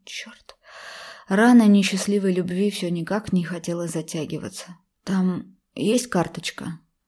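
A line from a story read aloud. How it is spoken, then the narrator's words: Tense, suddenly hoarse question. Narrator (Russian): напряженно спросил я вдруг севшим голосом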